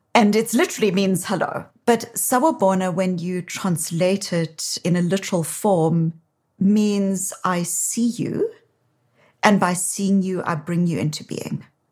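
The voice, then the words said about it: South African accent. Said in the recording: “So you can hear from my accent while I live in Boston. I'm originally from South Africa”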